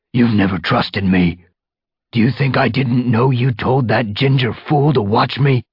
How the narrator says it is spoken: He spat the last words toward Brackenfur

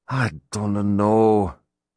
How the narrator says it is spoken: Ronan sighed heavily

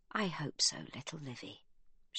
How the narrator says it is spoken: she says softly

